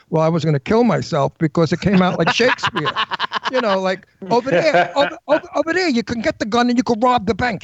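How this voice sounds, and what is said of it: Natural Brooklyn accent. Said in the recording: “I'm from Brooklyn. My accent's natural.”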